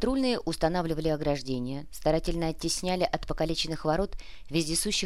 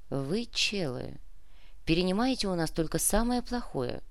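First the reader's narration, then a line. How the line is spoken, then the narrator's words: Sighing. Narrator (Russian): вздохнул Сантьяго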